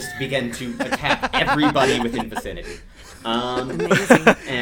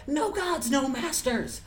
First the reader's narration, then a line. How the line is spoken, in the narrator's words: one of the goblins yells out